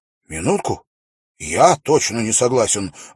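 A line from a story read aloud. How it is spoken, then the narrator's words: Exclaiming. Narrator (Russian): воскликнул Шон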